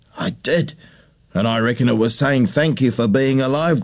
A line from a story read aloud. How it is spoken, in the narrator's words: Grandpa chuckled